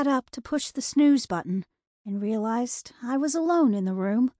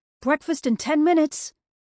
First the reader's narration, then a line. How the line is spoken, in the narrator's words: From the kitchen, Dad shouted